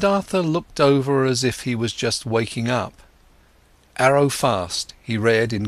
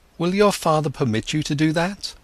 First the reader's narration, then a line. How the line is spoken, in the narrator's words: he exclaimed